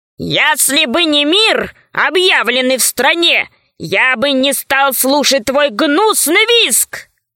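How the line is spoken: Roaring. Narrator (Russian): взревел червяк самый толстый

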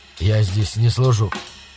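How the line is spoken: Mumbled in reply. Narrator (Russian): промямлил он в ответ

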